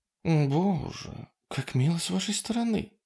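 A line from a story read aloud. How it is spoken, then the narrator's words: Purring. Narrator (Russian): промурлыкала она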